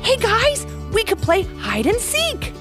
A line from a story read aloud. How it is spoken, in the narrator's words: Levi said excitedly